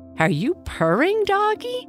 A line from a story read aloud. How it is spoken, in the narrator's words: said the little girl, laughing